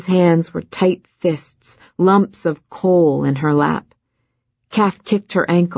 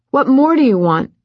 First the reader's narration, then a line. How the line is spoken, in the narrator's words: Wren whined